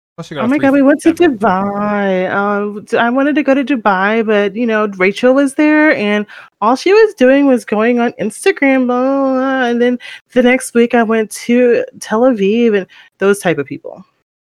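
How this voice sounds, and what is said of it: Rich white girl voice. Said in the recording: “rich white girl impersonation... How they sound”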